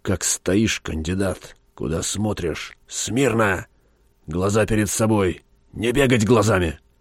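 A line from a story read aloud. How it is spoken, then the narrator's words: Hissed in face. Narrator (Russian): прошипел ему в лицо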